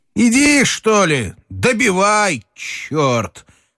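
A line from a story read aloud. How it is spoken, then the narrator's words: Shouting. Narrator (Russian): крикнул он Телегину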